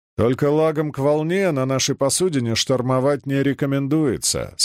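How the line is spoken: Plain. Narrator (Russian): сказал Чернышов

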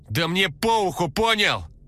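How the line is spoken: Yelling. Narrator (Russian): завопила она

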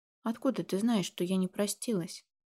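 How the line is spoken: Guilty whisper. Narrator (Russian): Виновато прошептала я

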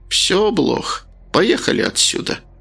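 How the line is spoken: Sigh. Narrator (Russian): вздохнула страница

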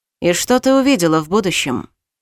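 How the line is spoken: Dry question. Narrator (Russian): Сухо поинтересовался он

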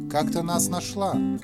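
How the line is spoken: Grumbling mutter. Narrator (Russian): пробурчал Колька

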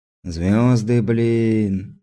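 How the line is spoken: Enchanted drawl. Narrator (Russian): зачарованно протянул тот

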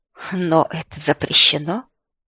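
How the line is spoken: Uncertain voice. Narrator (Russian): голос Позднякова звучит неуверенно

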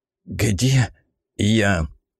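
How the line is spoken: Low hoarse voice. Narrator (Russian): Голос низким и сиплым, как у запойного алкоголика

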